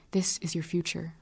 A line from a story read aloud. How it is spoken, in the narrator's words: Desire whispers